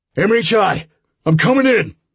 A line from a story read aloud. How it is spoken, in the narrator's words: Frank shouted